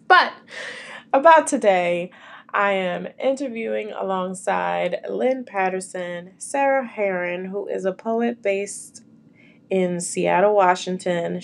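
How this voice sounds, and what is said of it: Raspy voice from a cold. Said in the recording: “I'm trying to get over this darn cold. So if I sound a little raspy”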